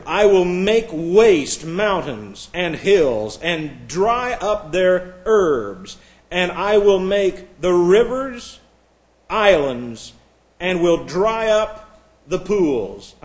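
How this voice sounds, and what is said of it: Slow, deliberate reading. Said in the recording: “I'm reading this slowly”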